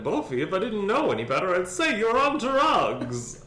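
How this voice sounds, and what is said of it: 1930s starlet voice. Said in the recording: “she had to say it just like a 1930s starlet ... That's the only way I can do an impression of someone.”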